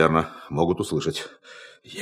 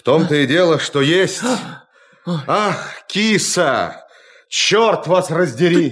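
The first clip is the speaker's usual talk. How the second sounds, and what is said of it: Shouting loudly. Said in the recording (Russian): “не кричите вы! Вас слышно!”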